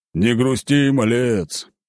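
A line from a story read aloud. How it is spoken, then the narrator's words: Deep booming voice. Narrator (Russian): пробасил он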